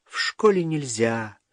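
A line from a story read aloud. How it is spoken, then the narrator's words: Sighing. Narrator (Russian): вздохнула Лена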